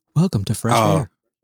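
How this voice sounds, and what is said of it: Low, calm public-radio announcer voice. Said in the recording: “NPR voice ... You got an NPR voice. It's just your white people speaking voice ... you just say it very low.”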